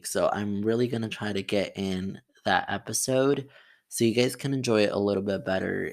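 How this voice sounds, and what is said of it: Tired-sounding voice. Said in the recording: “I sound really tired by the way. That's because I am.”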